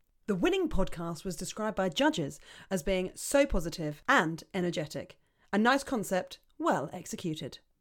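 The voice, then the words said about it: Mock broadcaster announcing voice. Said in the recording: “in your broadcasting voice”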